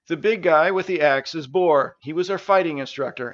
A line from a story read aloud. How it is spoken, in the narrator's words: answered Stavius